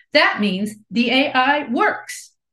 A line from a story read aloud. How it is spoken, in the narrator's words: Damian exclaims